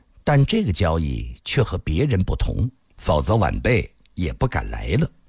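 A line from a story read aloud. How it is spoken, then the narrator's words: Calm, indifferent. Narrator (Chinese): 龙小云神色不变，淡淡地说道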